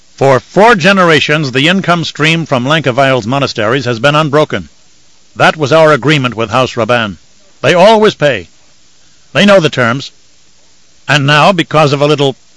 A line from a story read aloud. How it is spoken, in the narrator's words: the Baron snorted